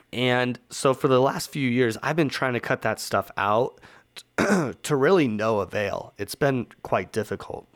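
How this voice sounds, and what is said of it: Hoarse, sore-throated voice. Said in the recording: “I've got a little bit of a sore throat. I had actually lost my voice a couple days ago ... it's still kind of tough sledding here”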